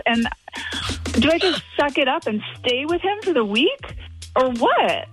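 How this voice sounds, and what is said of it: Upset voice rising higher in pitch. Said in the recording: “my voice is just getting higher and higher, but I'm still upset”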